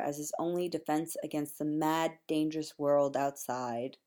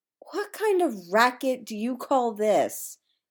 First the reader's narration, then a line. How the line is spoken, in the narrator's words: Amy yells from the hallway